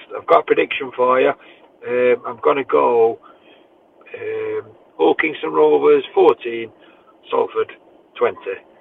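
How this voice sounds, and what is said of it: Mafia don impression. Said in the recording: “doing his best impression of the Don Mafia boss”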